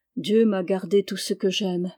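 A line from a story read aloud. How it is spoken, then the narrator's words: Murmuring. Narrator (French): murmura-t-elle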